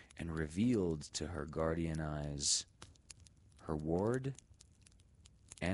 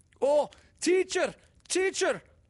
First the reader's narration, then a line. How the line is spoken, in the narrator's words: cried Morris, half in dismay at discovery and half in joy that this so sure confidant should share his secret and appreciate his friend